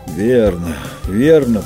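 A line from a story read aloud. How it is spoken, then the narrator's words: Groaning. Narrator (Russian): простонал мужчина по имени Дани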